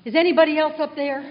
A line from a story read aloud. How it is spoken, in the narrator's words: the man yelled again